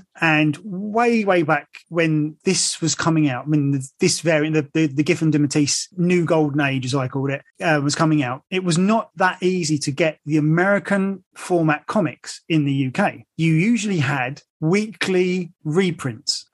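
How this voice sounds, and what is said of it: English accent. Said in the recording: “as you can tell from my accent, I am from England”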